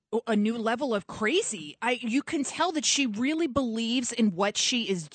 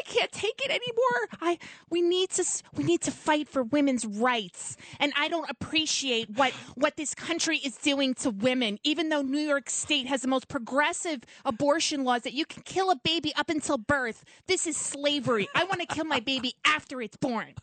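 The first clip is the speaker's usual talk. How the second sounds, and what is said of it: Impression of AOC. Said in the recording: “That's pretty good. That's very good ... You've done the AOC with me and Bernie before. You're great at it ... your impression was really good”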